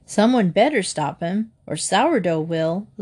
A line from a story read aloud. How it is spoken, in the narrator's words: Lefty laughed